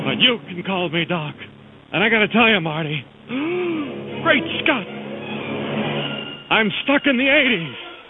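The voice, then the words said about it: Doc Brown impression, sounds like Don Knotts. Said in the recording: “great Don Knotts impression ... I think it sounds more like Jim from Taxi than it does Christopher Lloyd”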